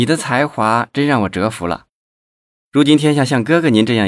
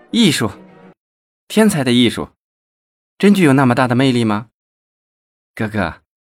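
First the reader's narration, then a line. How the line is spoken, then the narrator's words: Delighted, admiring exclamation. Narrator (Chinese): 王露露拍手叫好，连连的赞叹道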